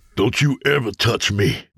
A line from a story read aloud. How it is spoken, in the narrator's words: James spat